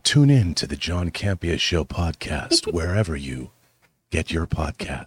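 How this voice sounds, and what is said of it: Soft, breathy ASMR-style voice. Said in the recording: “wonderful ASMR voice ... Ooh, so nice.”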